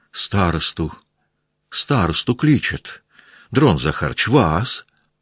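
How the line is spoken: Hurried submissive voices. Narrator (Russian): Послышались кое-где торопливо покорные голоса

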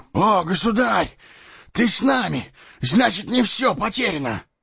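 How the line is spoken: Exclaimed. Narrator (Russian): воскликнул

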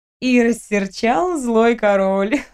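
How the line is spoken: Laughing. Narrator (Russian): рассмеялась я

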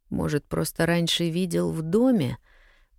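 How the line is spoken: Muttered. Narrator (Russian): пробормотал следователь

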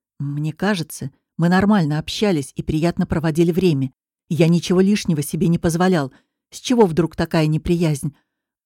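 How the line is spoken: Sharp, clipped. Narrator (Russian): Макс говорит резко, отрывисто

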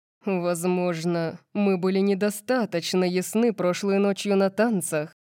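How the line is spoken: Growling. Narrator (Russian): прорычал Макс

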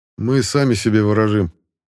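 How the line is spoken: Grumbled. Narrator (Russian): проворчал я

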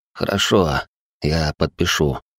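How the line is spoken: Hoarse resigned exhale. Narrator (Russian): хрипло выдохнул, понимая, что ничего другого в этой ситуации сделать не могу

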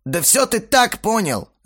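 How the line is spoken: Shouted. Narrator (Russian): закричал Бельфигор

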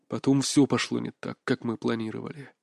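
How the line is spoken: Muttered. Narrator (Russian): пробормотал

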